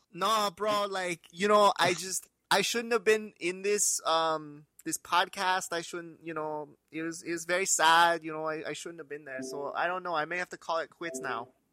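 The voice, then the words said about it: BJ Penn impression. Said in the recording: “my BJ Penn impression ... The impression's just so good. The impression's so good”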